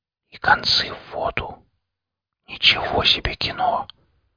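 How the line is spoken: Barely audible whisper. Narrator (Russian): Александр еле слышно прошептал

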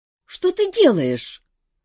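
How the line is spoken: Indignant exclamation. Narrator (Russian): возмущенно воскликнула Кира

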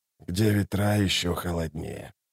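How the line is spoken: Mutter. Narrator (Russian): пробормотал Ток

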